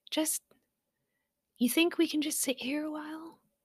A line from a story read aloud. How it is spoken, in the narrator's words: Poppy asked quietly